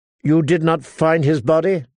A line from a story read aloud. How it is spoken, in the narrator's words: Harmer snorted, her disdain thrusting from her nostrils